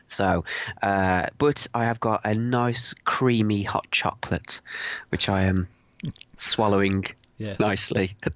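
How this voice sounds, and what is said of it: Bunged-up, congested voice. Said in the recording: “sounding a bit bungy... I've got a bit of a cold, a bit of man flu”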